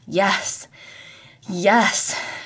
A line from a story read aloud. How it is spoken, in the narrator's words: she groaned out as her body shuddered with intensity of an oncoming orgasm